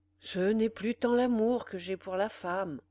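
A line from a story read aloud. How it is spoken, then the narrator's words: Hollow voice. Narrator (French): répondit Pierre d'une voix creuse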